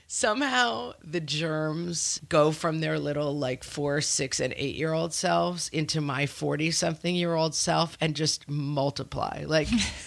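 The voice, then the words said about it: Congested, deep voice from a cold. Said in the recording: “Sounding a little like Ernest Borgnine. I'm sorry, I have a cold today.”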